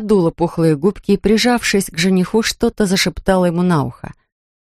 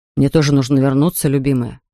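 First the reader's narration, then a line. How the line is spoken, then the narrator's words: Said tenderly. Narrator (Russian): произнес ласково Тьес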